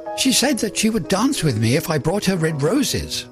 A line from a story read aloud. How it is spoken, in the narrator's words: cried the young student